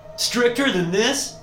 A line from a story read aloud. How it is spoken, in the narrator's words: I say, nearly shouting